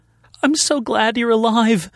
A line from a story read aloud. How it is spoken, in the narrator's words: she suddenly sobbed